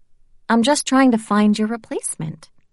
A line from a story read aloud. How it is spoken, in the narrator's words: I said, smiling sweetly